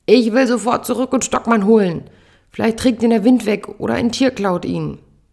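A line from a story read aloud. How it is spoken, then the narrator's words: Angry yelling. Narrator (German): brüllt sie mich an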